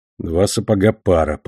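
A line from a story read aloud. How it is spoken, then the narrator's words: Mumbled. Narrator (Russian): пробормотал Эльма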